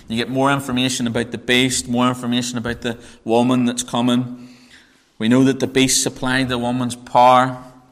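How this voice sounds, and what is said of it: Northern Irish accent. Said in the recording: “my Northern Irish accent ... It is the greatest accent known to man.”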